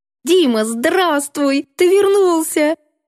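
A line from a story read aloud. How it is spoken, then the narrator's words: Joyful shriek. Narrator (Russian): Радостно взвизгнула Леночка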